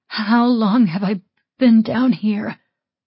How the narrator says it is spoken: I rasped

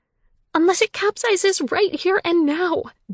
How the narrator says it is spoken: Julia shouted back

